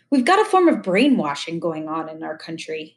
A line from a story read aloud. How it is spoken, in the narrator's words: Morrie sighed